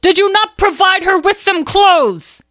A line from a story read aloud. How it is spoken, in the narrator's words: He screamed at the servants